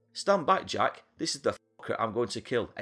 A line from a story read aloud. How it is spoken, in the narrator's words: exclaimed Moses